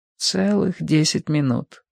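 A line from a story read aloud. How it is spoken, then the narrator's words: Mumbled. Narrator (Russian): пробормотала мама подгузника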